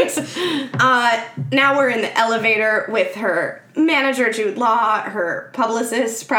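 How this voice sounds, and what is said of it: Usual voice. Nothing is said of it.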